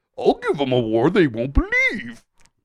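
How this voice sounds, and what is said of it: Impression of a talking manatee. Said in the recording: “that manatee impression”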